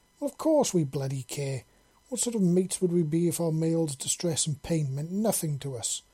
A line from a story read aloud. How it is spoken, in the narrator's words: Tashara exclaimed sulkily